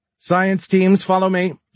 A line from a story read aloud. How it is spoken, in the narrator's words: shouted another